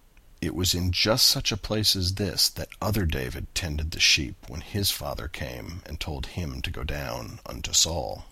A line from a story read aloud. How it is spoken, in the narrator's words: he muttered